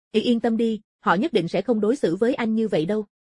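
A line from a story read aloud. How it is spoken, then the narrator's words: Hurried. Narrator (Vietnamese): Địch Tiểu Thiên vội nói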